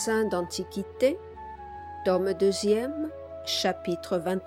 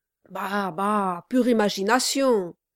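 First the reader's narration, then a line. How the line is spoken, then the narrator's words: Shouting. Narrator (French): cria Brass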